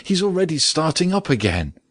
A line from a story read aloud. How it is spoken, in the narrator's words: she suddenly cried out